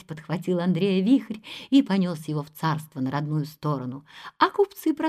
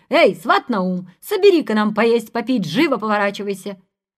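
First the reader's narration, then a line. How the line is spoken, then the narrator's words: Shouting calls. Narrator (Russian): звали кричали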